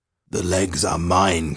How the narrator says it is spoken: croaked the third monster

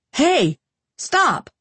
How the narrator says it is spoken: Craig shouted

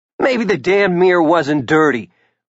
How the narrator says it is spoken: Ricky snapped

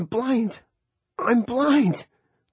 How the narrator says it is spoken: the boy was screaming

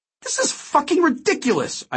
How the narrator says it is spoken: cried

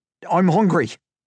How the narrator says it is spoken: Finn blurted

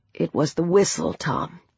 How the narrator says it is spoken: he said quietly

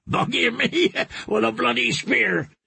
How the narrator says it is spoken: he said again, and started laughing too

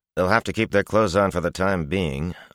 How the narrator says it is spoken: Iteralda replied dryly

